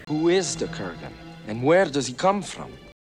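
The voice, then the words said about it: Christopher Lambert impression, rolled R's. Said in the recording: “how many R's do we think Christopher Lambert put into from ... an amazing way you've just said from there. It's not a Scottish way of saying it”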